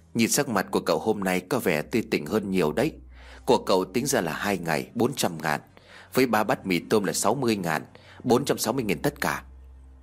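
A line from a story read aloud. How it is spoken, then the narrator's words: Soft chuckle. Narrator (Vietnamese): Bà chủ khẽ cười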